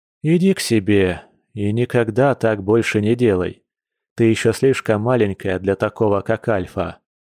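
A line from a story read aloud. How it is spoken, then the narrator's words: Weary. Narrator (Russian): устало произнес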